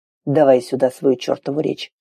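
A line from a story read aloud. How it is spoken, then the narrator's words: Almost rudely. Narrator (Russian): сказал почти грубо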